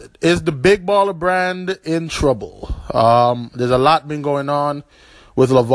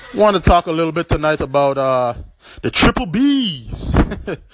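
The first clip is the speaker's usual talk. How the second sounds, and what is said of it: LaVar Ball impression. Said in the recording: “in my LaVar Ball voice”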